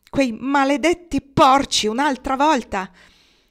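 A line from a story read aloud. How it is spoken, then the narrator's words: Furious outburst. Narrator (Italian): Hiram furibondo scattò dicendo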